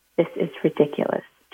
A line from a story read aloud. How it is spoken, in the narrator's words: Joshua muttered under his breath